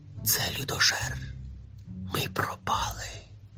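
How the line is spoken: Brothers whispering. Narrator (Ukrainian): прошепотіли брати

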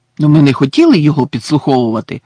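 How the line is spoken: Indignant exclamation. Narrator (Ukrainian): обурено вигукнув Рон

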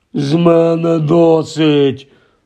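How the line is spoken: Moaning. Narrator (Ukrainian): простогнав дядько Вернон

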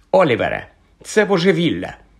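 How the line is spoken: Angry. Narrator (Ukrainian): сердито озвалася Алісія Спінат

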